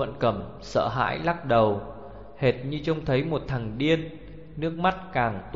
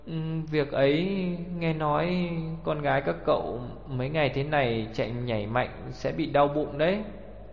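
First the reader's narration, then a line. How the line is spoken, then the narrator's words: Hesitant stammering. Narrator (Vietnamese): Cậu câm lặng hồi lâu mới lắp bắp thốt ra một câu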